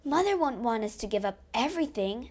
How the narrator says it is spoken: cried Jo

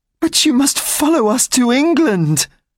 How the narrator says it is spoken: cried Cosette

